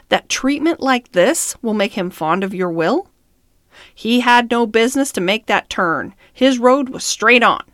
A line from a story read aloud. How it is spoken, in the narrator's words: said the man roughly